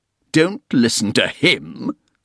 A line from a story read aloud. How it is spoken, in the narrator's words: Soames thundered